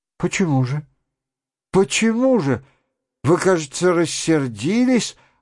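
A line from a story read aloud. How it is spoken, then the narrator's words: Upset, pleading question. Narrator (Russian): огорченным и умоляющим голосом спрашивала Лиза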